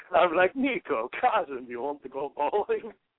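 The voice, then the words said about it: Put-on Russian accent. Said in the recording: “I go Russian because that's as close as I can do ... You do a Russian accent”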